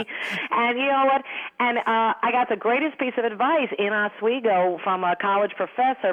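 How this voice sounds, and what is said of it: Thick Long Island New York accent. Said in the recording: “you do have that definite New York accent ... my Long Island accent ... when I talk fast, it usually comes out ... a thick one like mine”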